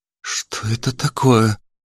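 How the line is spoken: Frightened question, young woman. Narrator (Russian): испуганно спросила девушка

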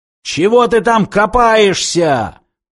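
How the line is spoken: Roar. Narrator (Russian): проревел снайпер

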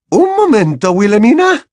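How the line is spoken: Exclaimed. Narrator (Spanish): exclamó la profesora McGonagall

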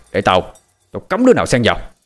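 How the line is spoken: Loud shout. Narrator (Vietnamese): Tiết Cương quát lớn

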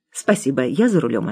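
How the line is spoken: Plain. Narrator (Russian): ответил я

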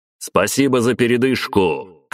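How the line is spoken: Shout. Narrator (Russian): крикнул

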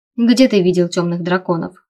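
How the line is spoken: Skeptical snort. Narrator (Russian): хмыкнул Лейден

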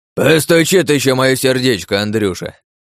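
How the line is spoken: Old man barking. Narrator (Russian): рявкнул дед

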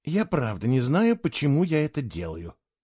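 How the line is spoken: Grumbling. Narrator (Russian): проворчала она

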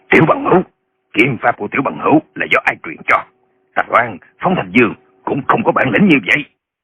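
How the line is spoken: Old man shouting. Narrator (Vietnamese): Lão Nhậm quát lên

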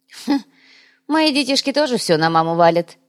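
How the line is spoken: Amused snort. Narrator (Russian): хмыкнул Махи

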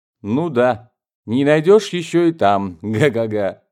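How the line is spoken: Sudden silly guffaw. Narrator (Russian): вдруг расхохотался Винтер глуповатым смехом

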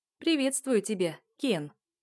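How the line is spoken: Giggling. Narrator (Russian): хихикаю

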